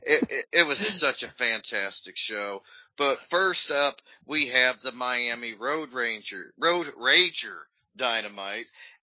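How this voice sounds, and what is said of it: Hoarse voice. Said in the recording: “My voice is still hoarse from booing and cheering.”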